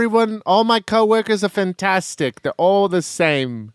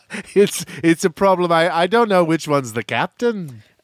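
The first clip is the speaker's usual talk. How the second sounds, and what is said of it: Slight put-on Scottish accent. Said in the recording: “was that a little bit of a Scottish accent?”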